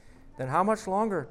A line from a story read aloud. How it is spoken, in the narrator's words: pants the man